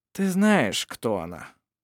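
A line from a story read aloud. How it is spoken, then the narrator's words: Weary. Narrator (Russian): устало сказал Ировар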